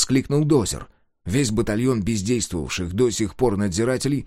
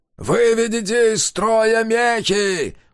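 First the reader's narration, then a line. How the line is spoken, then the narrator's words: Ghost shouting. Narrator (Russian): прокричал призрак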